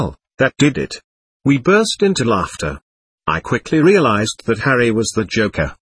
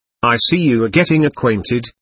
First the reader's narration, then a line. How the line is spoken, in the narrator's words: said